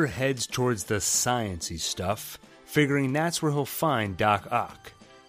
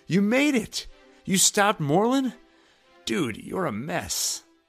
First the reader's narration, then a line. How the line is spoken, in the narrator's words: Miles excitedly responds